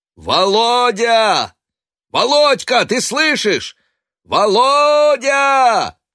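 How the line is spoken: Desperate loud shout. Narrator (Russian): Матвей кричал отчаянно громко

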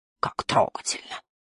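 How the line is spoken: Grumbling. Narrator (Russian): проворчал Барда

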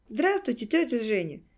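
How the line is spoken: Loud greeting, young woman. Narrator (Russian): громко поздоровалась девушка

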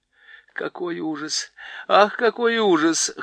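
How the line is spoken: Whimpering. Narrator (Russian): хныкала Лазарелина

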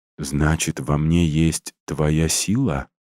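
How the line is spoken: Thoughtful mutter. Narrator (Russian): задумчиво пробормотала Марина

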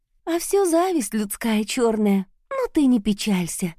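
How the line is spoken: Warm, smiling tone. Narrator (Russian): рыжая улыбнулась ласково

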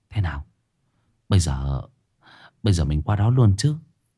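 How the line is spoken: Soft. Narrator (Vietnamese): Thiết khẽ nói

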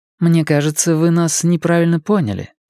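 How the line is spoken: Calm. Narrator (Russian): спокойно сказала Мия

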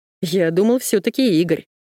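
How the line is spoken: Chuckling. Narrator (Russian): хохотнул он

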